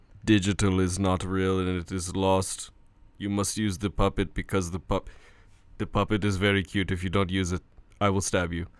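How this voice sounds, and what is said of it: A very good impression. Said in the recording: “That was a very good impression, man.”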